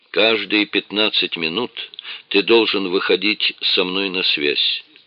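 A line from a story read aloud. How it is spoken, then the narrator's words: Quiet. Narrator (Russian): тихо сказал Гродис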